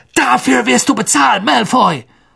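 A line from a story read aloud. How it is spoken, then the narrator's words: Shouting. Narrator (German): Ron schrie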